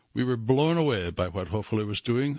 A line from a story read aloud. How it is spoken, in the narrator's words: Phillips says